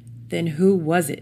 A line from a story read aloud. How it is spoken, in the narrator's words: snapped Kelly